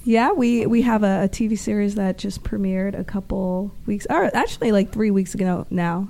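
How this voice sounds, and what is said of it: Hoarse, weakened sick voice. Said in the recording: “my voice has kind of gone. I'm a little sick right now.”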